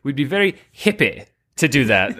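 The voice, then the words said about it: Put-on posh British accent. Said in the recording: “you have that posh British accent,... the royal hippie kind of arches of vowels.”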